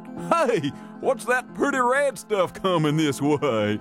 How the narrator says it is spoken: One of the big alligators hollered out

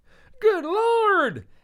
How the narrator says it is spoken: another person yelled

